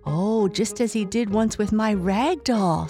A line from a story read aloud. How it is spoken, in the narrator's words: said Elsie